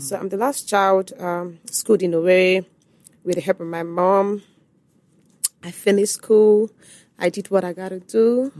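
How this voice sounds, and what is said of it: Nigerian Igbo accent. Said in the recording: “Igbo accent”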